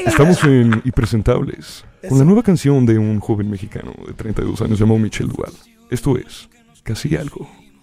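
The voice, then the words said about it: Radio announcer voice. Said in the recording (Spanish): “Con voz de locutor de radio.”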